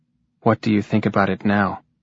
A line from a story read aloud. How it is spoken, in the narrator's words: asked Jean in a tired, flat voice